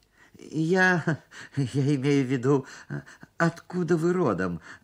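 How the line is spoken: Stammering. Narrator (Russian): заикался я

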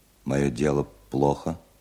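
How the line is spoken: Calm, clear question. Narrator (Russian): спросил немец довольно спокойно и четко

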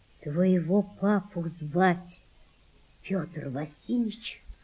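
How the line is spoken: Quiet woman. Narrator (Russian): сказала мать Валентины тихо

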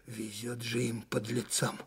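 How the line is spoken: Chilly, shivering voice. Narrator (Russian): зябким голосом проговорил штабной майор

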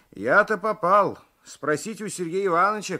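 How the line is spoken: Shouting. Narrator (Russian): кричал Алексеев

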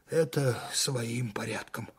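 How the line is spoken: Tired. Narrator (Russian): устало сказал майор

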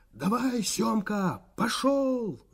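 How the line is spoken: Hoarse shout. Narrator (Russian): закричал Иван Иванович простуженным голосом

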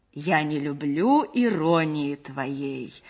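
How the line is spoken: Exaggerated hammy reading voice. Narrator (Russian): сказал актер нарочитым жирным голосом плохого чтеца

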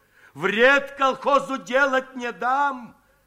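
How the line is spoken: Emboldened shouting. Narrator (Russian): ободренный приходом Давыдова, кричал Майданников

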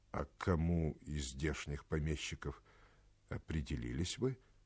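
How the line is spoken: Plain. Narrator (Russian): спросил офицер

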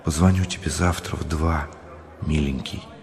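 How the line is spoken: Whispered. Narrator (Russian): Людмила шепнула

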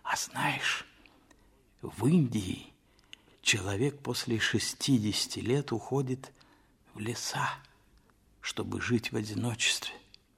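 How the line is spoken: Whisper. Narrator (Russian): Толстой сказал почему-то шепотом

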